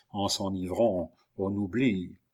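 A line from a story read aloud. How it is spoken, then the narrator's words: Murmured. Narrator (French): murmura Montsoreau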